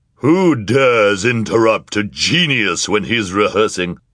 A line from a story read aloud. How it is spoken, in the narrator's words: said a voice that was loud, booming, and strangely familiar